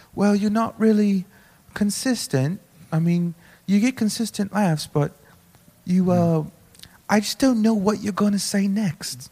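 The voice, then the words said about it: Put-on English accent. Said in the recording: “Is that Asian? ... it's the English accent ... English accent ... but it's like good”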